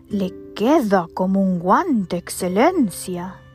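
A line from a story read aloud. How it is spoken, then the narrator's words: Exclaimed by several. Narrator (Spanish): exclamaron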